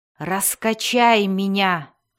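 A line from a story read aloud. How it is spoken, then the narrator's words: Commanding growl. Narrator (Russian): прорычал Дзирт таким повелительным тоном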